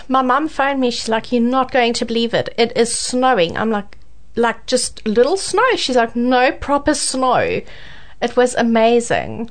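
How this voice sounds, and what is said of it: Strong South African accent. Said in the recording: “proudly South African ... that South African accent is still coming through quite strong”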